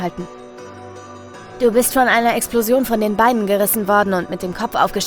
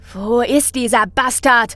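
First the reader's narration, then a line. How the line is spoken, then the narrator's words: Angry shout. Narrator (German): ruft Laughing Jack wütend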